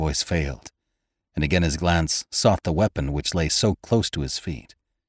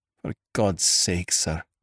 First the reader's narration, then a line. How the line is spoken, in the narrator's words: groaned Robert